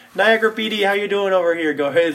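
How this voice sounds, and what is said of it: Put-on gentle Canadian accent. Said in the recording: “I'm putting on like a Boston accent or some shit ... There's some like nice gentle Canadian accent.”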